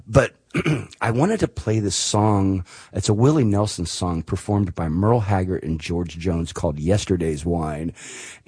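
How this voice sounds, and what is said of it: Hoarse, worn-out voice. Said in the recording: “You can tell my voice is kind of gone. I've been woo-hoo-hooing and hollering and hooping for 3 days.”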